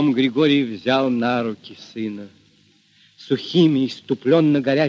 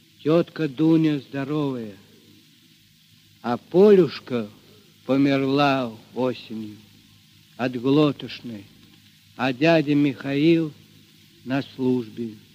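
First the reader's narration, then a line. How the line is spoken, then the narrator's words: Quiet reply. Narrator (Russian): Мишатка тихо ответил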